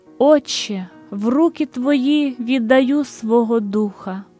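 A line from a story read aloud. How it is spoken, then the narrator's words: Sufferer's strong voice. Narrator (Ukrainian): Страждалець сильним голосом промовив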